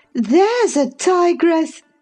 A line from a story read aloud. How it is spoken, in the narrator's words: exclaimed Mrs